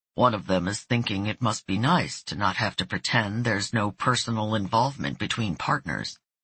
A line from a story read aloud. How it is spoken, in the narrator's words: Calmly, her partner said